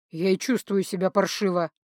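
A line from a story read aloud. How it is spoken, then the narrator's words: Grim chuckle. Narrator (Russian): Данелион мрачно усмехнулся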